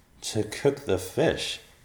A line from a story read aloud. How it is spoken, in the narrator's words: Thomas said and chuckled